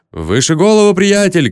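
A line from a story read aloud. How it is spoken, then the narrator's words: Shouts from crowd. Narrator (Russian): кричали из толпы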